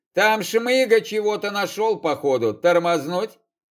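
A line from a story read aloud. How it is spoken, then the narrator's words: Grunted. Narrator (Russian): Крапленый хмыкнул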